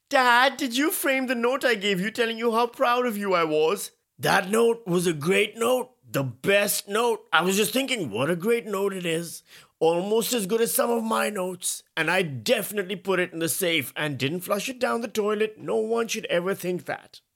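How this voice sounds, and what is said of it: Poor Donald Trump impression. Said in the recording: “My Trump impression is terrible.”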